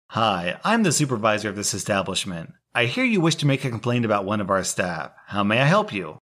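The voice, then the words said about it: Polite customer-service retail voice. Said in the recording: “smiled in my best retail voice”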